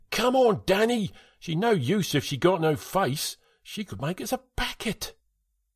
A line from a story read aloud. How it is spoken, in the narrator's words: Todd shouted again